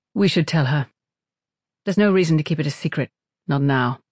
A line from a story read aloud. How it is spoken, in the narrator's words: In a somewhat placating tone, Nielsen said